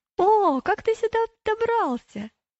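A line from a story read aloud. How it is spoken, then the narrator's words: Surprised exclamation. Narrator (Russian): Когда Слабоумный увидел его, он удивленно воскликнул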